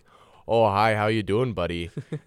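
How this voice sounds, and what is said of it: Put-on Canadian accent. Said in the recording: “oh shoot, that was like a Canadian accent”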